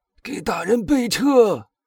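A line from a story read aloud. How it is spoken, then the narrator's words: Hoarse shouting. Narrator (Chinese): 贝尔图乔 用一种嘶哑的声音大喊道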